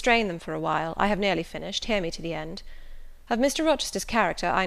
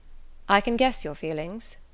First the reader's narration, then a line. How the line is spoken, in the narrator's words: he said